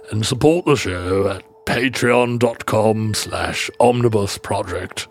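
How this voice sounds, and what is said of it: Winston Churchill impression. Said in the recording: “all those are very hard words to say in a Churchill accent”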